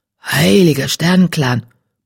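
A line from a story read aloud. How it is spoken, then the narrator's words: Grumbling. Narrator (German): brummte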